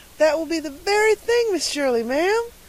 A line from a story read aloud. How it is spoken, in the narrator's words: exclaimed Carlotta the Fourth in rapture